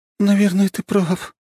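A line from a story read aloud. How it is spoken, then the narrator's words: Melancholy sighing voice. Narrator (Russian): с тоской в голосе сказала она и вздохнула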